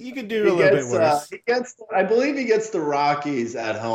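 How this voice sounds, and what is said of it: Usual voice. Nothing is said of it.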